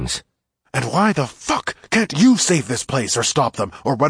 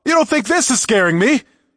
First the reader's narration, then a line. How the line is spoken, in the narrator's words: I shouted, forgetting myself